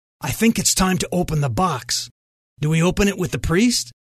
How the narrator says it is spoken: Wade step closer to Julia and whisper

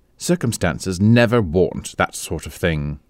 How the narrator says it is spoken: said Amanda hastily

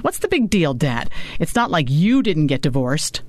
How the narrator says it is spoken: Maddie snapped

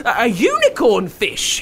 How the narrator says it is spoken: he shrieked in delight

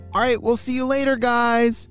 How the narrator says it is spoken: shouted Momo

